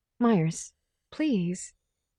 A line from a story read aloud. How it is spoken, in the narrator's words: Paula said anxiously